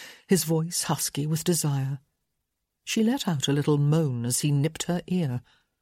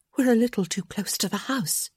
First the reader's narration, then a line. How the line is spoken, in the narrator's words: she gasped, her belly clenching with need